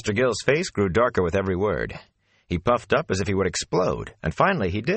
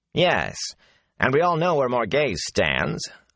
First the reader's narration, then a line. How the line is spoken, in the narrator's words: the under-officer twisted the Queen's name into a sneer